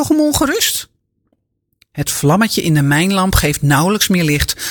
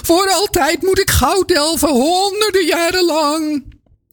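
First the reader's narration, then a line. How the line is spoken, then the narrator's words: Wailing lament. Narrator (Dutch): jammert de baron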